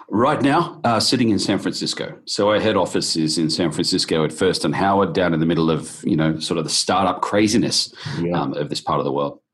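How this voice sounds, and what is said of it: Australian accent. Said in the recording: “with the accent, it's pretty clear, but so Australia”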